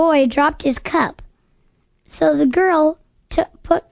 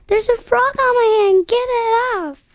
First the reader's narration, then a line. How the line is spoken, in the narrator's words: She screamed